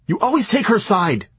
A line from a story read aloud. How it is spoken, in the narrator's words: Eve barked